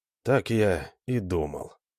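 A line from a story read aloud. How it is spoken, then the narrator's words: Quiet. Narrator (Russian): проговорил Алан также тихо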